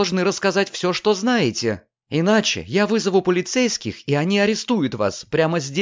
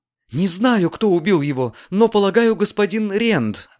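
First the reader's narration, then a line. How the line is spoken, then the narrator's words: Frightened woman answering. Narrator (Russian): ответила маленькая женщина, которая выглядела теперь очень испуганно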